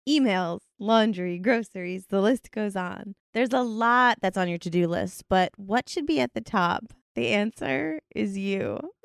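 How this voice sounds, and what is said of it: Sultry, seductive voice. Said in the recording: “do my best sexy voice”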